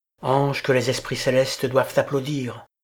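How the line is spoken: Exclaiming. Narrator (French): s'écria-t-il

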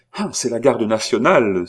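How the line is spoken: Exclaiming. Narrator (French): s'écria Charny

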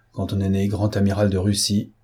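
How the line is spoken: Grumbling. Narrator (French): grogna un pessimiste

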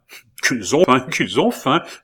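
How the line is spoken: Queen's exclamation. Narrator (French): s'écria la reine

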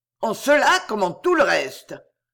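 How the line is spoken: Thundering interruption. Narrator (French): interrompit le caissier du Crédit Mutuel d'une voix tonnante

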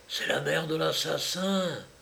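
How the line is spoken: Murmuring. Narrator (French): murmurait-on

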